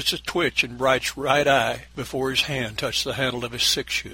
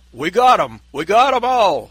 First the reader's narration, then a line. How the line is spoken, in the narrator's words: Ned said excitedly